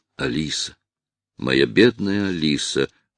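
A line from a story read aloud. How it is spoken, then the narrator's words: Mumbling. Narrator (Russian): пробормотал Хейвард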